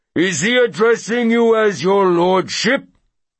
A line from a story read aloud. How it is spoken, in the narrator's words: Beaupré bellows